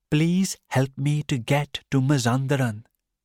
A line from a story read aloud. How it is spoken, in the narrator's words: Rostam said